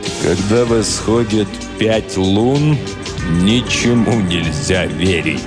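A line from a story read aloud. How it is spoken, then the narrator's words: Grave, sepulchral voice. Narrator (Russian): сказал суперинтендант Флинт за могильным голосом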